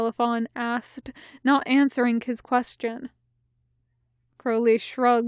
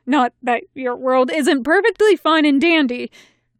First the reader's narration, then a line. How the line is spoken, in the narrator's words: he added hastily